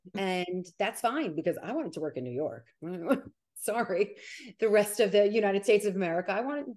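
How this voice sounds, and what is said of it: New York Italian-American accent, fast speech. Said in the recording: “you are too New York, New Jersey ... my accent and I talk like an Italian American and I talk really fast.”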